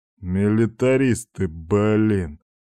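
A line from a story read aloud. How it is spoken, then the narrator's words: Good-natured snort. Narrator (Russian): Беззлобно фыркнул Степан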